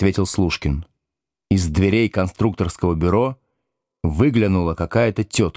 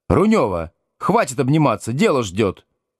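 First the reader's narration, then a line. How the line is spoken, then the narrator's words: Shouted. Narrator (Russian): крикнула она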